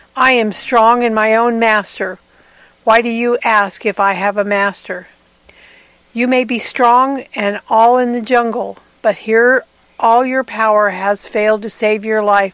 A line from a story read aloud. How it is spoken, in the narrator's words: the sheep replied